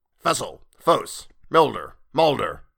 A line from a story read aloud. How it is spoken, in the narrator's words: barked a voice